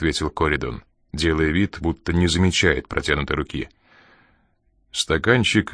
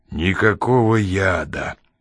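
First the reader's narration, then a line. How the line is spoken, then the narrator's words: Through teeth, frozen smile. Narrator (Russian): процедил Заня с застывшей улыбкой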